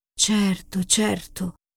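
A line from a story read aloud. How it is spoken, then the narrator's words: Murmuring faun. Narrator (Italian): mormorò il fauno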